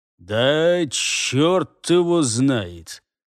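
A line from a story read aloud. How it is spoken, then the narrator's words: Drawled. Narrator (Russian): протянул Джаргул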